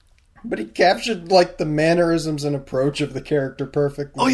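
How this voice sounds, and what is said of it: Usual voice. Nothing is said of it.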